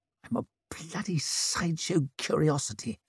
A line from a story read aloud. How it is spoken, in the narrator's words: he murmured as he struggled to chew and retain his teeth at once